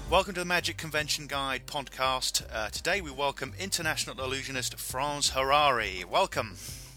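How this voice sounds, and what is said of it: British accent. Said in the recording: “I just like hearing that in a British accent ... when people hear me talk, there's very much an accent”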